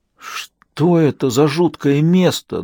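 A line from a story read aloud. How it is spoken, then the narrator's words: Trembling question. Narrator (Russian): дрожащим голосом спросил он Аниту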